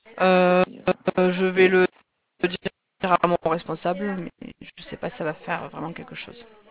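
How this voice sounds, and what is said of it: Southeastern French accent. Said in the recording (French): “Je reconnais le sud-ouest, ... dans votre accent, c'est que vous êtes dans le sud-ouest. ... Sud-est.”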